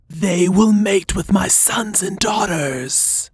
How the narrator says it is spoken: the beast spoke, her voice like a whisper deep in Bootsy's mind

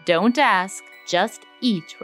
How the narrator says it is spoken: replied Aladdin

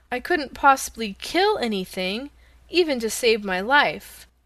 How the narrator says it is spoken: cried Dorothy

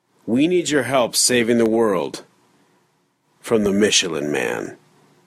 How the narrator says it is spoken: The man then said in a stoic voice

